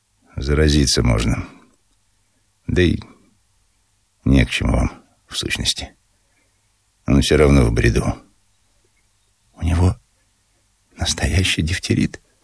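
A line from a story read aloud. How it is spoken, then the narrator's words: Whispered question. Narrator (Russian): спросила шепотом Ольга Ивановна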